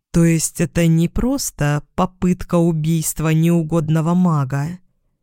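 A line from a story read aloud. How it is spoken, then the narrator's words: Slow question. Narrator (Russian): спросила она медленно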